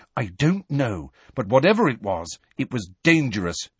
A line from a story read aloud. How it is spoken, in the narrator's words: she said firmly